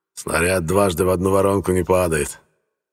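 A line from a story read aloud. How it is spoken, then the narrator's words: Snort. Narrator (Russian): хмыкнул Лейбовиц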